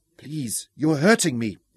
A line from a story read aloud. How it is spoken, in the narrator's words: Isabella gasped